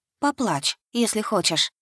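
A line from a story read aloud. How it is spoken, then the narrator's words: Soft whisper. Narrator (Russian): Девушка ... тихонько шепнула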